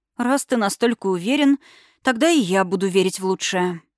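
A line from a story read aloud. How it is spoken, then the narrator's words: Relieved exhale. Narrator (Russian): выдохнула с облегчением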